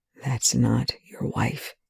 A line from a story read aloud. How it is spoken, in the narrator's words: Young whispers